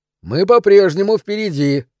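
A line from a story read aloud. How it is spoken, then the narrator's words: Cheerful announcement. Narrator (Russian): бодро объявил я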